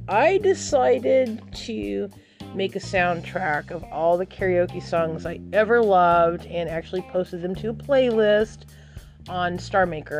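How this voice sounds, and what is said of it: Hoarse, losing her voice. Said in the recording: “losing my voice. No, it's not from screaming... I'm losing my voice”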